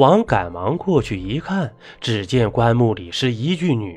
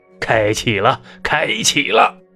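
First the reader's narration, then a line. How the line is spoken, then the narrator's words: Clamorous group shouting. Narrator (Chinese): 魏先生和他手下大呼小叫道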